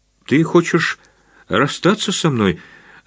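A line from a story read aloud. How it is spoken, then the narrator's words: Trembling voice. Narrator (Russian): дрожащим голосом спросила Наташа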